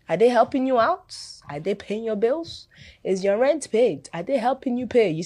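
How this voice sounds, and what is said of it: African accent coming through. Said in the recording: “the African accent has even penetrated”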